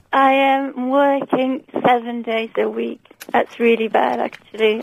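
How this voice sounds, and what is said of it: Belgian accent, tired voice. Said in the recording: “I'm really tired, you can hear that in my voice. ... Where is your accent from again? ... I'm from Belgium. ... it's the best accent in the world. It's such a good accent. It's nice.”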